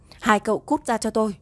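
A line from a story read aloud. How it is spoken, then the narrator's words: Angry shout. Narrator (Vietnamese): Tang Diên quát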